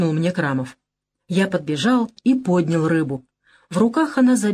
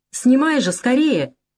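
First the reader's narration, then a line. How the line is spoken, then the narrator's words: Shouted. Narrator (Russian): крикнула Светлана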